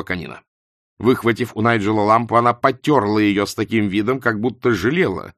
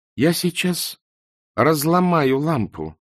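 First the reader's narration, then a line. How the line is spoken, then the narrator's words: Calm threat. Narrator (Russian): спокойно пригрозила Канина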